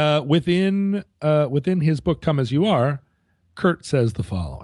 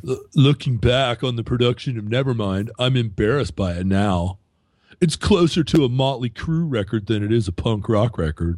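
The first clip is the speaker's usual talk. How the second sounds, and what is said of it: Imitates another person's voice. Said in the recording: “here I'm going to do my Kurt voice.”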